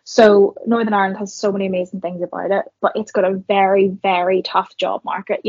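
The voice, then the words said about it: Northern Irish accent. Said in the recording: “I've got a Northern Irish accent.”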